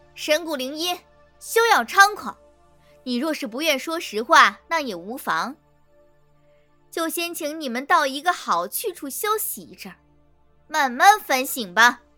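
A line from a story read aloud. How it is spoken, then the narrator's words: Loud voice. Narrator (Chinese): 白玉凤大声道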